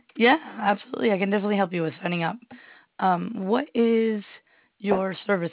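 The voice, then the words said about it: Voice sounds impaired. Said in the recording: “Sorry about my voice.”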